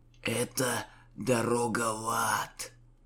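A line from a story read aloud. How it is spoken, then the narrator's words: Wheezed. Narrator (Russian): просипел Лукьян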